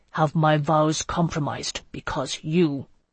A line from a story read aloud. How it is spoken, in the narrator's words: he began in a tight voice